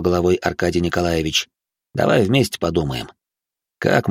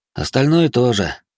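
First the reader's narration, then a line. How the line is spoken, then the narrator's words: Sighing. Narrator (Russian): вздохнул Олег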